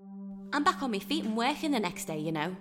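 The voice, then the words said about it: Strong Liverpudlian accent. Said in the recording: “uses a lot of abbreviated words and non-standard grammar, and, of course, she has a strong Liverpudlian accent ... drops”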